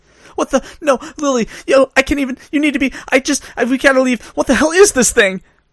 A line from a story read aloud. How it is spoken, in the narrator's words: She sputtered